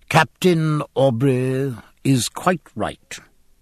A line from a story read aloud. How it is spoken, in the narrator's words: said the civilian in a sententious voice